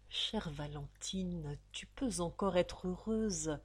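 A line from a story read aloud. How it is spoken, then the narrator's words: Murmured. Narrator (French): murmura-t-il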